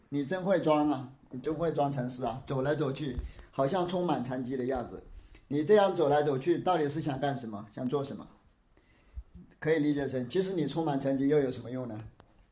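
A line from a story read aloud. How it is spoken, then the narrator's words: Sarcastic mocking. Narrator (Chinese): 他这是在讽刺德山宣鉴禅师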